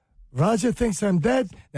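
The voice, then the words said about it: Put-on Jewish dialect. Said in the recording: “why did I just do Jewish dialect?”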